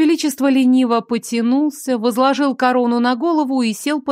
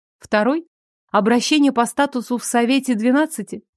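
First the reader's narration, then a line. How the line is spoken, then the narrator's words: Calm reply. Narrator (Russian): Советник спокойно ответил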